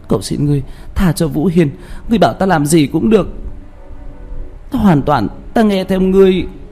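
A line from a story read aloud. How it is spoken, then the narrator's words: Anguished sobbing scream. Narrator (Vietnamese): Liễu Như Như hét lên thảm thiết, chỉ biết gào khóc nức nở, nói với Đạo Phong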